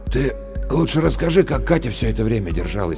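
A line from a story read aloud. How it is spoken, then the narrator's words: Hoarse interruption. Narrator (Russian): прервал Максим Лешин монолог хриплым голосом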